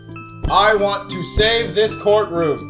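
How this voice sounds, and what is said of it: Very booming voice. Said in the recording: “in a very booming voice”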